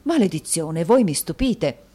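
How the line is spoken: Exclaiming. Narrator (Italian): esclamò Mantalini

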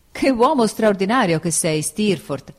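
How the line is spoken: Surprised exclamation. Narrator (Italian): esclamai perché era la prima volta che me ne parlava

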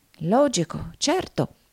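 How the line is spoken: Murmuring. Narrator (Italian): mormorò Nickleby

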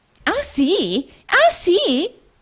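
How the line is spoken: Shrill female exclamation. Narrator (Italian): esclamò un'acuta voce femminile

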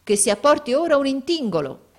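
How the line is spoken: Exclaiming. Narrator (Italian): esclamò il Barmecida

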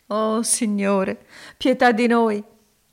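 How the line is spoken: Sobbing exclamation. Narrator (Italian): esclamò Elisa singhiozzando

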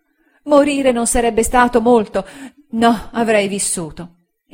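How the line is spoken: Woman exclaiming. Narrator (Italian): Ella esclamò

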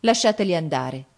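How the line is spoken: Cold. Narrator (Italian): disse Gianni freddamente

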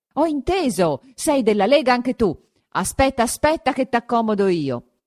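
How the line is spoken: Louder yelling. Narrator (Italian): cominciava a urlare più forte ancora

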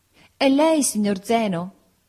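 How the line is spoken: Maid calling out. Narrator (Italian): Maria, la nostra cameriera, gridò nell'oscurità

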